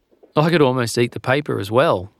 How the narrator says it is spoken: said Larry

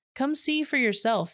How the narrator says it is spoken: Philip replied

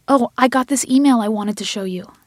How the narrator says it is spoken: Diana exclaimed

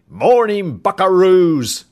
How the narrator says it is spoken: a foghorn voice boomed

